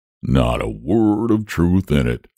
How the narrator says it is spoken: said the dragon, wagging his head solemnly

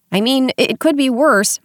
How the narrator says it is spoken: Moss Cap replied in a chipper tone

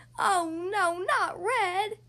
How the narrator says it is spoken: I screamed

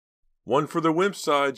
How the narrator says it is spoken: shouted Ricky in triumph

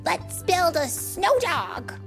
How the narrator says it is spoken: barked Oscar

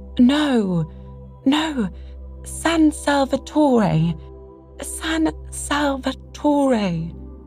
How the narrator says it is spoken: exclaimed Mrs

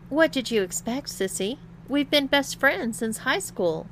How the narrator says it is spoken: chuckled Lana

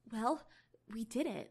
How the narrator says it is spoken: Marinette whispered

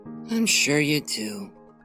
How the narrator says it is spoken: grumbled under her breath

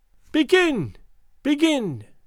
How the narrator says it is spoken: cried out Gagool in her thin, piercing voice

